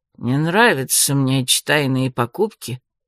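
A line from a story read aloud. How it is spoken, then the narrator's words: Grumbling mutter. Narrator (Russian): буркнул он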